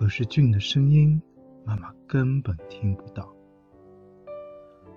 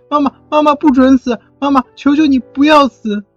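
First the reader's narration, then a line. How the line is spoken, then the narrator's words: Loud crying. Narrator (Chinese): 俊大声哭了起来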